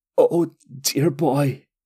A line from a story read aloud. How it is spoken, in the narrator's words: Dalsur groaned